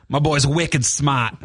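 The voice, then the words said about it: Put-on Boston accent. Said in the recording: “I love a Boston accent, though.”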